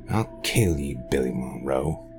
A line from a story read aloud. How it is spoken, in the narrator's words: he growled